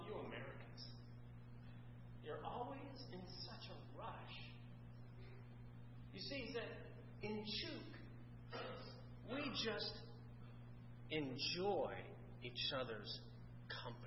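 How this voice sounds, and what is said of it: Thick German accent. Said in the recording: “with, ironically, a thick German accent”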